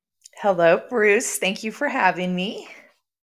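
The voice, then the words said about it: Sultry, seductive voice. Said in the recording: “when you talk to me in that sexy voice”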